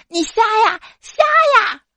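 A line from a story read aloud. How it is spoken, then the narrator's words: Loud roar, angry. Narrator (Chinese): 二货同桌因为我踩到他掉落地上的笔而大声咆哮道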